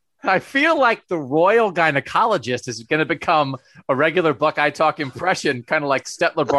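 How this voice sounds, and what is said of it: Usual voice. Nothing is said of it.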